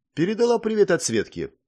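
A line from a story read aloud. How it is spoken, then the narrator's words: Cheerful, smiling. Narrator (Russian): ответила Вика, весело улыбнувшись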